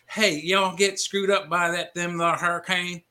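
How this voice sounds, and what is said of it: Deep Georgia Southern accent. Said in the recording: “in a deep Georgia accent”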